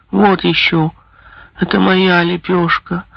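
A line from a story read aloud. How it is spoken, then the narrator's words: Whining. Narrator (Russian): захныкал он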